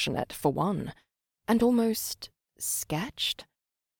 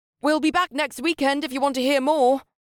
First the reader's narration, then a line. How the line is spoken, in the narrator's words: he shouted back to the girls